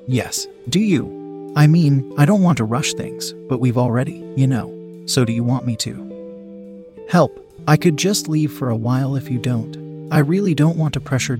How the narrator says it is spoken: Jessica faltered

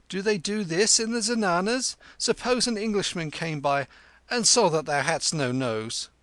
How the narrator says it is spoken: he cried

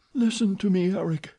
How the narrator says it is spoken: sighed the girl

